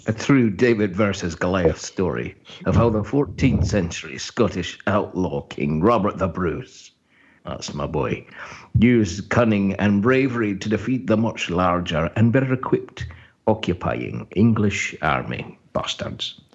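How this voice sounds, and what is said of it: Put-on Scottish accent. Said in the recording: “in his best Scottish accent”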